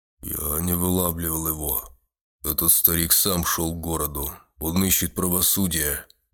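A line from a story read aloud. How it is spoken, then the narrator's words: Muffled, dull voice. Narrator (Russian): глухо произнес палач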